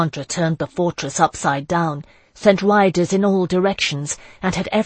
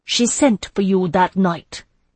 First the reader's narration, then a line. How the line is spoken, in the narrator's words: Isandra said, her voice cold and hard as steel